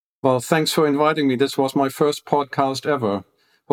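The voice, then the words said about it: Peculiar accent in English. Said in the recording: “my peculiar English accent”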